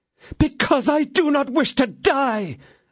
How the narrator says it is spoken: exclaimed her ladyship, struggling

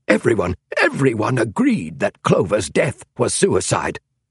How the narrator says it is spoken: snapped King

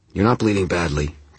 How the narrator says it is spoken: Tara said, her voice calm

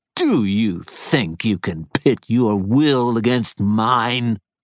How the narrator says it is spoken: she snarled

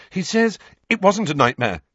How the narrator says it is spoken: said Harry quickly

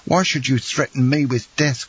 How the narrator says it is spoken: cried I

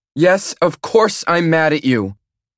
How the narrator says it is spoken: she yells

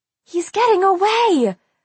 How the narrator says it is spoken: I heard V shriek

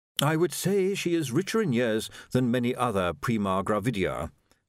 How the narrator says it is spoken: said Willikins smoothly

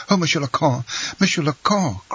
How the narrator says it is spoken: cried the steward, struck with terror at this threat

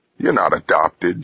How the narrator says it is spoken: she laughed

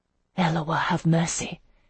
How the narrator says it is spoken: she murmured to herself

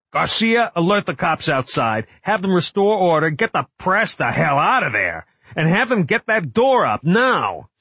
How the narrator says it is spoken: He yelled into his radio

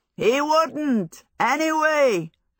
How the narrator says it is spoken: Hal shouted back

